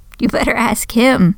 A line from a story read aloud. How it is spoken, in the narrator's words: he laughed